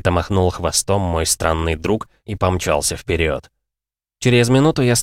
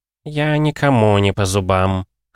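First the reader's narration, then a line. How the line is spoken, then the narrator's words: Smirking cat grunt. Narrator (Russian): хмыкнул котяра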